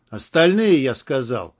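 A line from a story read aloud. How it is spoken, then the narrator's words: Booming voice. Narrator (Russian): прогремел голос Байкалова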